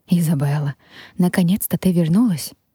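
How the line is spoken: Relieved sigh. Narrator (Russian): С облегчением вздохнула та

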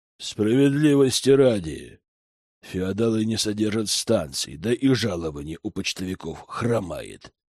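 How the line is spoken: Drawling mercenary. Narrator (Russian): протянул наемник

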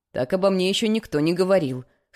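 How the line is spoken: Snorting. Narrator (Russian): хмыкнул Адам

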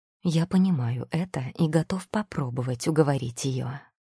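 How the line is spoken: Gentle. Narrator (Russian): мягко сказал Демиар

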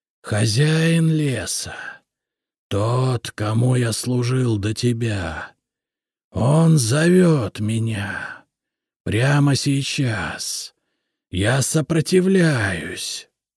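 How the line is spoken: Hissing. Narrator (Russian): прошипел Полос

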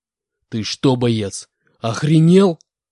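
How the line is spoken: Growled. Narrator (Russian): прорычал он

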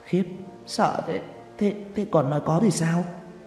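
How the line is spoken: Stammering question. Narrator (Vietnamese): lắp bắp hỏi

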